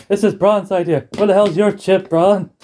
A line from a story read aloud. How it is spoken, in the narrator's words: he's shouting at the camera